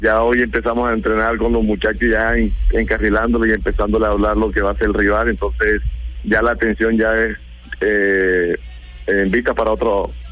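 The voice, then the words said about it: Colombian coastal Spanish accent. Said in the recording (Spanish): “Con acento costeño.”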